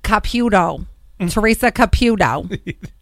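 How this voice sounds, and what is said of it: Thick Long Island accent. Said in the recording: “In a thick Long Island accent”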